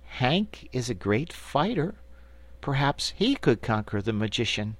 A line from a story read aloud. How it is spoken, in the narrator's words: Betsy said in a hesitating voice